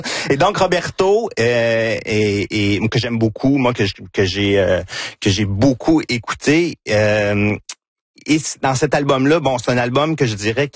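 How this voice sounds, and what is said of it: Quebec French regional accent. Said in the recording (French): “c'est mon accent de Victoriaville”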